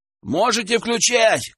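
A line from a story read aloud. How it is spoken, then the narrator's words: Shouted into house. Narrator (Russian): крикнул он в дом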